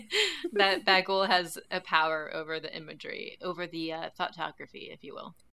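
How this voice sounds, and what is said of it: Speaks in a put-on accent. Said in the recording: “I don't know why I said it in that accent ... Say it like that every time.”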